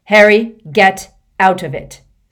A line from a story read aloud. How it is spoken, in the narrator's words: snarled Sirius